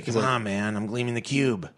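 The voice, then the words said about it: Imitates another person's voice. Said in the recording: “That's my impersonation of Christian Slater ... That's not bad, actually.”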